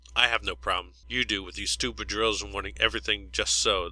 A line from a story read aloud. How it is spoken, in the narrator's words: spat back